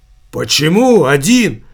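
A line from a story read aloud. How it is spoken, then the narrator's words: Exclaiming. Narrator (Russian): воскликнул Савиньи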